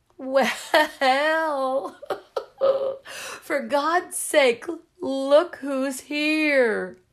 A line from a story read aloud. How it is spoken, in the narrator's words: bawled Mrs